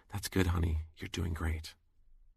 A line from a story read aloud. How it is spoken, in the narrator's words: She whispered in my ear